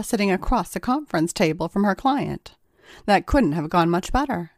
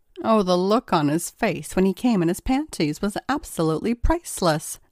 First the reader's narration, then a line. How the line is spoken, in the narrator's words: chuckled Ava